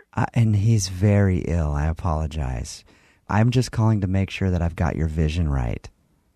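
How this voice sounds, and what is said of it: Creepy, soothing put-on voice. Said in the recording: “you're not going to talk in that creepy voice during the ceremony, are you? ... I've heard that my voice is soothing”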